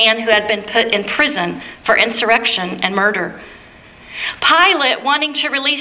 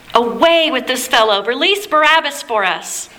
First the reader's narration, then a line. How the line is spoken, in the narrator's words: the crowds shouted